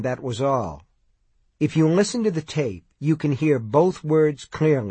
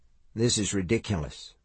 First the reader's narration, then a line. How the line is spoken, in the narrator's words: Mike murmured